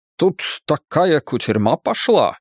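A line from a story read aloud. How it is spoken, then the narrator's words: Exclaiming. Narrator (Russian): воскликнул он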